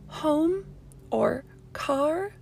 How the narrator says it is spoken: Her voice is still strained when she asks

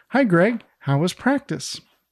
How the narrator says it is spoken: She cheerfully answers

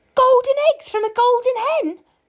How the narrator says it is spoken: cried Jack's mother

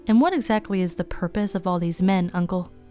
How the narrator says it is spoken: Rhonda smiled blandly

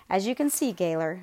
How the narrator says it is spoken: Mella said dryly

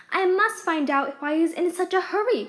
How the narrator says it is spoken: cried Alice

